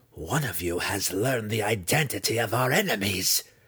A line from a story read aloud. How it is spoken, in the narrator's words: she snapped at her sons